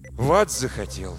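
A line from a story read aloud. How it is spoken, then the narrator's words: Tired question. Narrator (Russian): устало спросил Самуэль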